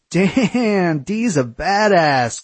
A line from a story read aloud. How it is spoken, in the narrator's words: Corey laughed